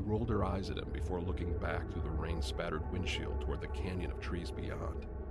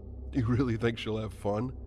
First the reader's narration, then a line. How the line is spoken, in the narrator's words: Paul laughed and smirked